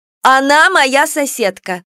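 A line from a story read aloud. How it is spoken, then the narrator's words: Exclamation. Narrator (Russian): воскликнула Кикимора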